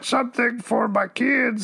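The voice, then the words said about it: Adam Sandler impression, Cookie Monster-like. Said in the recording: “it sounds like you're being a cookie monster ... that's my Adam Sandler impression”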